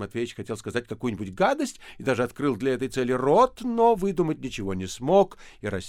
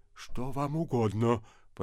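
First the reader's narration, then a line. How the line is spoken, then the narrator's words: Whispered. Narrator (Russian): прошептал отец Федор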